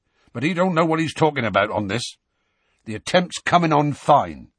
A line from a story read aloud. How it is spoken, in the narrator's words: he said gruffly